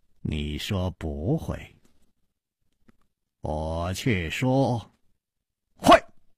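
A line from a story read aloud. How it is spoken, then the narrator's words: Slow smile. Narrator (Chinese): 楚留香缓缓地笑了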